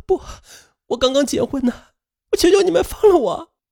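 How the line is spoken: Terrified sobbing plea. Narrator (Chinese): 女人惊恐的哭着，嘴里只是反复的说

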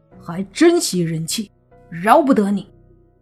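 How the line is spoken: Angry. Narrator (Chinese): 莫凡 怒道

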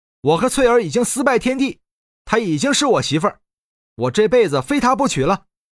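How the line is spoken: Loud young man. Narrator (Chinese): 地上的年轻人大声说道

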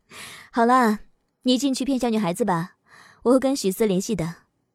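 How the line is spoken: Laughing question. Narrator (Chinese): 翟丹青又笑着问了一句

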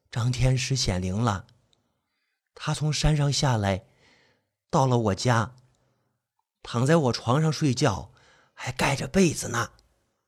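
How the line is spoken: Quiet. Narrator (Chinese): 唐春花小声的说

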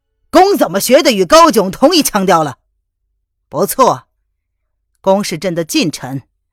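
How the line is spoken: Furious emperor. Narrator (Chinese): 皇上勃然大怒

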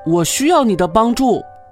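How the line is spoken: Calling out. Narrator (Chinese): 巴布呼叫罗迪

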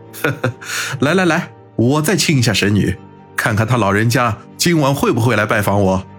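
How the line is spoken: Laughing. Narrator (Chinese): 哈哈笑道

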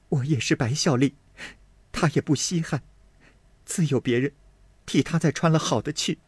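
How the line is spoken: Crying. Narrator (Chinese): 林黛玉哭道

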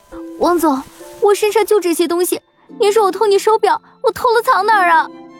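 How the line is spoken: Crying. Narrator (Chinese): 张雨婷哭着说道

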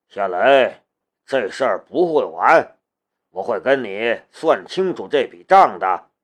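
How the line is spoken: Calm and cold. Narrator (Chinese): 古可武冷静了下来，他冷冷的道

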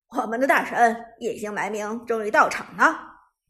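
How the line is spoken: Smiling male commentator. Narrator (Chinese): 男解说笑着说道

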